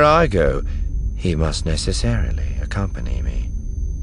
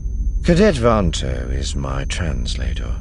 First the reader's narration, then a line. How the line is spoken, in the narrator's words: Thrawn said calmly